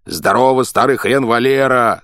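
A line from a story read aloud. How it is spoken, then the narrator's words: Yelling. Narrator (Russian): заорал я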